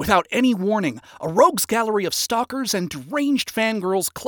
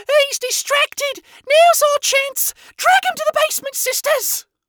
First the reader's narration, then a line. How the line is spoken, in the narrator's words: a horned avian sinner screeched out